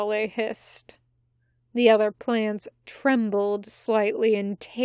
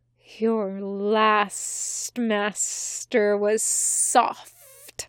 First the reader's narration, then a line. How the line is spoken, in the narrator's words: Crawley hissed